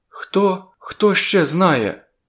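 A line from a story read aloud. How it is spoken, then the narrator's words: Frightened female question. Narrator (Ukrainian): злякано запитала вона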